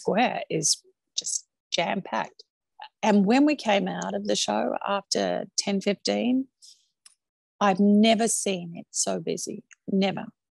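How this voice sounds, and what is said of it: Australian accent. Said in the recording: “Your full Australian accent's still there.”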